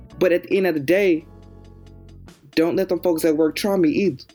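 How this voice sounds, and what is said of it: Southern accent. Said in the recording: “this Southern accent”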